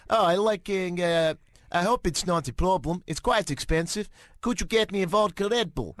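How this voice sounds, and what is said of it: Put-on Norwegian accent. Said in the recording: “That's a great accent ... If you are Norwegian, you're almost definitely offended by this”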